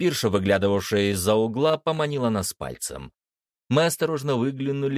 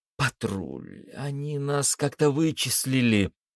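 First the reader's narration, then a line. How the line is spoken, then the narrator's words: Whisper. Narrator (Russian): прошептала Даша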